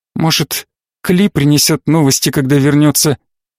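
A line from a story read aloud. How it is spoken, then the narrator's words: Trembling voice. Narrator (Russian): дрожащим голосом выговорила Корделия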